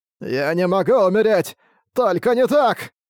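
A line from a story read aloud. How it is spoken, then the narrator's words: Staggering desperate shout. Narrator (Russian): Пошатываясь, выкрикнул карма, когда у него осталось 5% здоровья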